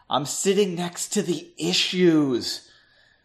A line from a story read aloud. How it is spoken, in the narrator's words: whispered